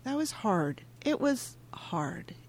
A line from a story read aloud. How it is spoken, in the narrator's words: Nora nods her head and says softly back